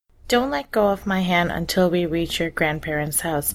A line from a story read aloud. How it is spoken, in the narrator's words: Mommy says